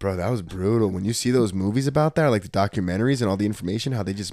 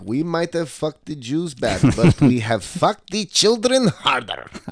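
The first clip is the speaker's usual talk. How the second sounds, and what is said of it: Weak attempted German accent. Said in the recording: “You don't have a German accent? ... That's Russian. ... I got a fucking German accent. I'll work on it”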